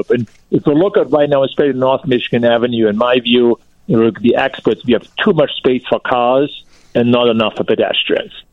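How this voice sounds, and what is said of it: European accent. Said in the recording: “you might have guessed by my accent, I come from Europe”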